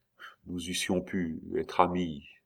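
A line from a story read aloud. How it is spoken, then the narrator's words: Murmured. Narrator (French): murmura-t-il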